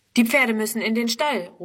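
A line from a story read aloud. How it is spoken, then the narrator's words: Calling out. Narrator (German): ruft er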